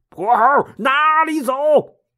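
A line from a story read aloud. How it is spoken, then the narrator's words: Shouting. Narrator (Chinese): 梅山六兄弟 大喊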